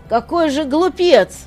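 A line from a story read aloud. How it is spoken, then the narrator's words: Shout. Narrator (Russian): кто-то крикнул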